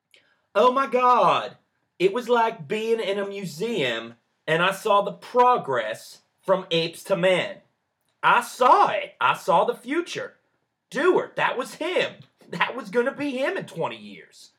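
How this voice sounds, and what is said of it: Put-on Southern accent. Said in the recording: “that charming southern accent of yours ... Yeah, not too bad.”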